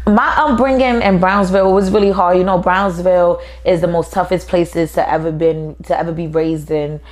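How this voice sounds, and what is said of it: New York accent. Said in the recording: “I love your voice... The voice or the accent?... He like this New York shit.”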